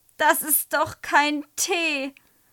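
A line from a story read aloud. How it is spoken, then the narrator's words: Call. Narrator (German): ruft Güler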